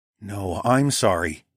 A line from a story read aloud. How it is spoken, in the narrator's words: told her, firmly but gently